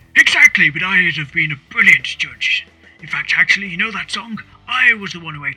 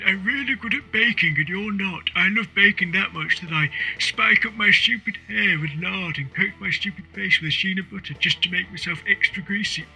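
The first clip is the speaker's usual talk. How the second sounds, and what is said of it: Imitates another person's voice. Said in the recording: “Do you want to hear my impression? ... I'm sure it sounds just like him.”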